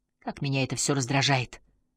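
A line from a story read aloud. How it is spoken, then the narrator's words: Quiet. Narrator (Russian): тихо сказала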